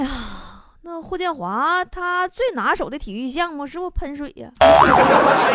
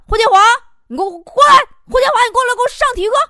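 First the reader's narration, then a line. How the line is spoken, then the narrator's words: Teacher shouting suddenly. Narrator (Chinese): 体育老师以迅雷不及掩耳盗铃响叮当之势，也朝那边开始喊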